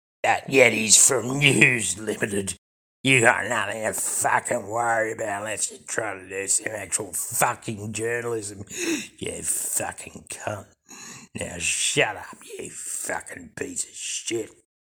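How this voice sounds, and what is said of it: Cockney drawl character voice. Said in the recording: “in his charming cockney drawl”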